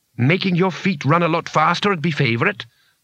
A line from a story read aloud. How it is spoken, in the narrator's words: said Bethan grimly